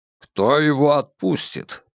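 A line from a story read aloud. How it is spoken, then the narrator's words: Grumbling. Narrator (Russian): проворчал шиповник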